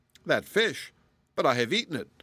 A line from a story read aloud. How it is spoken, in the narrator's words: exclaimed the baker in dismay